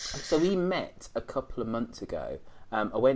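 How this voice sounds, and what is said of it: Usual voice. Nothing is said of it.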